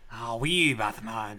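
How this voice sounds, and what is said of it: Attempted Scottish accent. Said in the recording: “I can't even do a Scottish accent... Scottish is tough.”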